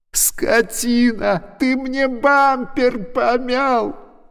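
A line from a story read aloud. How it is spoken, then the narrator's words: Shout near tears. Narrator (Russian): Чуть не плача крикнул Никита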